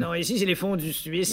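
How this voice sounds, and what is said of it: Put-on Swiss French accent. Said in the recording (French): “Vous avoir l'accent suisse.”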